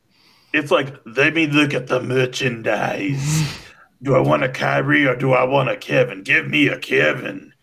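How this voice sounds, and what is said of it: Weaselly sci-fi traitor character voice. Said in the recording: “Are you imitating that sort of the sort of weaselly looking, very hook nosed traitor character from the first Star Wars, ... from the prequel Star Wars?”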